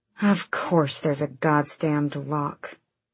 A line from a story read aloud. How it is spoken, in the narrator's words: she muttered